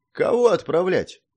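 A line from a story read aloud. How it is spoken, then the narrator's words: Sad smirk. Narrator (Russian): печально усмехнулся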